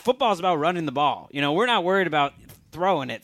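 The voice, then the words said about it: Put-on Southern accent. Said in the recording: “Why did you give Steve Wilks a Southern accent?”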